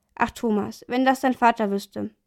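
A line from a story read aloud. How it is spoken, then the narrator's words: Mother's sigh. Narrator (German): seufzte sie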